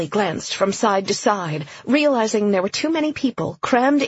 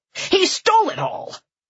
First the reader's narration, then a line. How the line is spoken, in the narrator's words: The crowd roared with anger